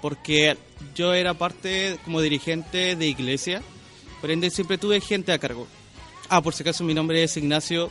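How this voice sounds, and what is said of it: Slow, carefully articulated male voice. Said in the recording (Spanish): “esta voz de hombre... un tema de, del acento, pero soy chileno en realidad... me acostumbré a modular mucho, a ser más pausado”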